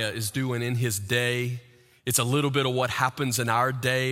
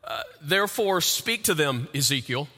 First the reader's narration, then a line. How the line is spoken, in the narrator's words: God says